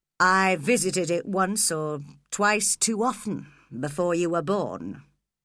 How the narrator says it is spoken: he said

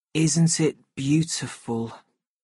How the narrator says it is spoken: His voice trembled a little

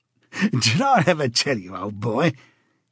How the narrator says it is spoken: he said, chuckling round the stem of his pipe

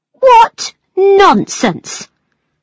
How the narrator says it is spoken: Alice said crossly

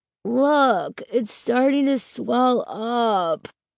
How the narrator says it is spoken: groaned

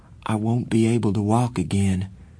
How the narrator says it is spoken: Johnny started, then faltered

